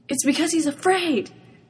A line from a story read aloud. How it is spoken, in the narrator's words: Tamaki gasped, eyes shining with the romantic and poetic tragedy of it